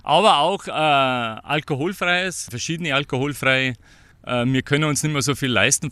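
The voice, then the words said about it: Bavarian German accent. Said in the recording (German): “Man hört es am Akzent.”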